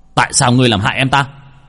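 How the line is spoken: Angry shout. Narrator (Vietnamese): bác cổ … mà quát

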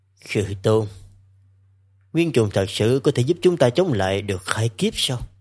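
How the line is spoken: Soft. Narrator (Vietnamese): Trấn Thành khẽ nói

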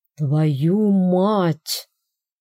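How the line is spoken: Hoarse wheeze. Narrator (Russian): прохрипел Финн

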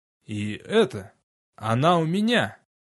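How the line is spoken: Strained. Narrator (Russian): выдавил я

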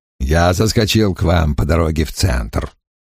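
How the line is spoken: Grumbling mutter. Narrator (Russian): пробурчал Крэмер

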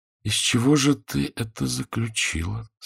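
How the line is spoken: Quiet question. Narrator (Russian): спросила она негромко

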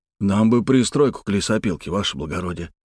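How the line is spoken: Strangled wheeze. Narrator (Russian): сдавленно прохрипел Кабальный

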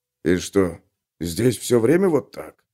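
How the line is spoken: Low-voiced question. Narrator (Russian): вполголоса спросил Гловард

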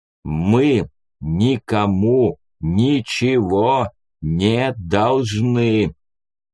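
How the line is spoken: Clipped, through gritted teeth. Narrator (Russian): процедил Степан сквозь зубы, будто отбивая каждое слово

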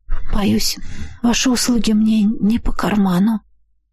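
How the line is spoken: Ashamed breathy exhale. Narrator (Russian): выдохнула с несвойственным мне чувством стыда за собственную несостоятельность

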